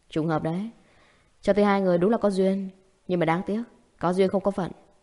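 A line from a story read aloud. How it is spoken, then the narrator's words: Sarcastic. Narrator (Vietnamese): Diệp Trì nói vẻ mỉa mai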